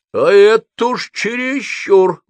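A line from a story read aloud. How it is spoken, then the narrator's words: Old man barking. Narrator (Russian): гаркнул старина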